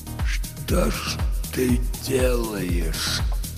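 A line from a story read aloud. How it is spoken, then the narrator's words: Barely audible whisper. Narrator (Russian): прошептал он, но это услышал только Хо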